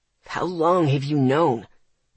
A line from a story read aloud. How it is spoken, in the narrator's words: Ethan asked through his teeth, his entire body rigid